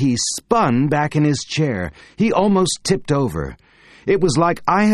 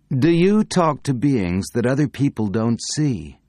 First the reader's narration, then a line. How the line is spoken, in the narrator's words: I asked him in a very calm voice